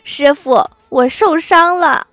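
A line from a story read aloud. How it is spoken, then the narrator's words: Whimpering. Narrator (Chinese): 昨天哭唧唧的 和太二真人说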